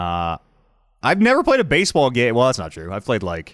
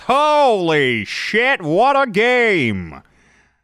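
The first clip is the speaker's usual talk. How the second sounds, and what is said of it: Baseball announcer voice. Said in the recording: “my baseball announcer voice”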